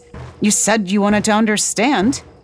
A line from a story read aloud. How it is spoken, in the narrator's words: Kenya snapped